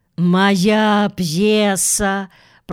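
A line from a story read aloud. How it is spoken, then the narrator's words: Weak groan. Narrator (Russian): простонал Гарольд Прайс, без сил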